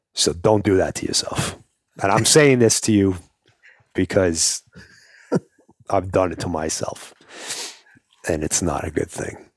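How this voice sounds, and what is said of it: New York accent. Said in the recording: “the New York accent ... kind of Rocky-ish”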